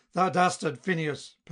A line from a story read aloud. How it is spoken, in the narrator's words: Perseus cried